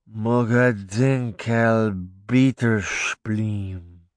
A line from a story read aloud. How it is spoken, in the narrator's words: he mumbled